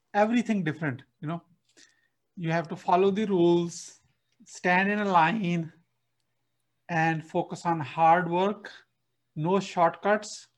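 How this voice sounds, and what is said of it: Non-native English accent. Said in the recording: “if you can see my accent right now”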